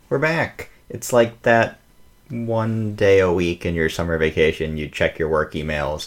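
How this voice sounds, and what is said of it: American accent. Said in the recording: “with an American accent.”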